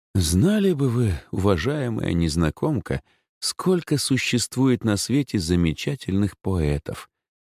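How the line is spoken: Mock-sad sigh. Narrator (Russian): нарочито грустно вздохнул я

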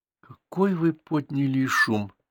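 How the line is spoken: Quiet. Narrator (Russian): тихо сказала она

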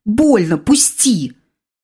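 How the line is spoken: Exclaimed. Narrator (Russian): воскликнула я

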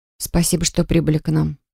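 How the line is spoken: Mutter. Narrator (Russian): пробормотала

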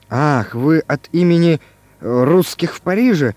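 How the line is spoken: Muttering. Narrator (Russian): забормотал Иван Иванович

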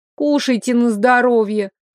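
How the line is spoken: Snapping. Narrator (Russian): огрызнулась я

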